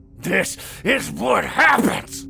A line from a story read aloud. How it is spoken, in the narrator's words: Carl growled and coughed